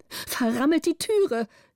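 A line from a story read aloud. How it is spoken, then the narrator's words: Calling out. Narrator (German): rief die Gräfin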